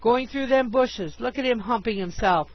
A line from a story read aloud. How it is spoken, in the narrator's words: one cried